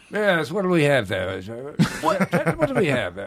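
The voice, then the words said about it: Put-on British waiter voice. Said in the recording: “Could you be a British waiter? ... He's just doing a voice.”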